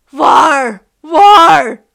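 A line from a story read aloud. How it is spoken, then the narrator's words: Rabbit, miserable wailing. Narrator (Chinese): 兔子伊德用一种凄惨的呜咽声叫着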